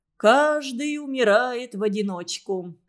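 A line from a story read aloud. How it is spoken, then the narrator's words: Laughing. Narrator (Russian): засмеялся Костя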